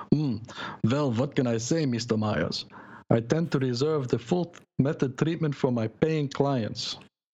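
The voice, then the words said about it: Put-on Russian accent. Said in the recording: “with his Russian accent”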